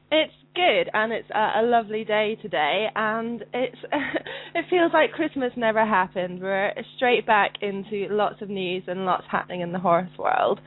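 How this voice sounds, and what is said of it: Sounds unwell, congested voice. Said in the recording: “Than you, it sounds like. ... I have a cold.”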